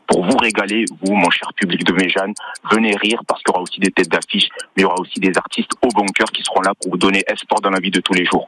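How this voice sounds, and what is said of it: Toulouse regional French accent. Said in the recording (French): “moi j'ai l'accent toulousain ... ça s'entend un petit peu”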